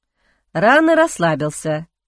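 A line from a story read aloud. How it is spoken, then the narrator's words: Snorting chuckle. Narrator (Russian): хмыкнул Ихран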